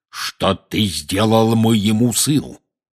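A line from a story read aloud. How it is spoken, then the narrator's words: Menacing growl. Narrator (Russian): грозно зарычал он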